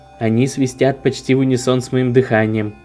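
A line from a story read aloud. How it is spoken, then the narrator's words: Plain. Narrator (Russian): сказал он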